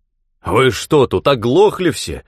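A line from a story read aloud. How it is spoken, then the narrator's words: Bark. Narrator (Russian): рявкнул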